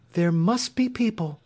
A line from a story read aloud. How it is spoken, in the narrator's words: cried Dorothy